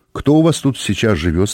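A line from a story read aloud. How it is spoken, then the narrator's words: Plain. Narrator (Russian): спросил я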